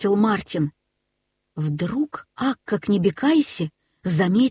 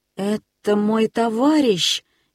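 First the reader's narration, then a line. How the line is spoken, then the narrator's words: Uncertain. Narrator (Russian): неуверенно сказал он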